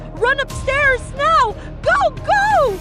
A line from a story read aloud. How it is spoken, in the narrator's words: Haley shouted